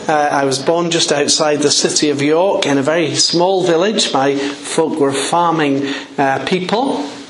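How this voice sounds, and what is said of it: English accent. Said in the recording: “You'll know that because of my accent. I'm an English man.”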